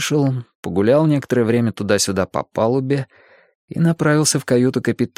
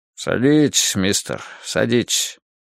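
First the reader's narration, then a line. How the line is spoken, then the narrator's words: Grumbling. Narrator (Russian): проворчал Буллин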